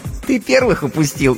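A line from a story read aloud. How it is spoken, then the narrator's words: Giggle. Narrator (Russian): хихикнула она в ответ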